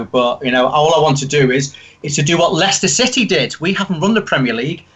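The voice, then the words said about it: Liverpool accent. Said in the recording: “You have a Liverpool accent.”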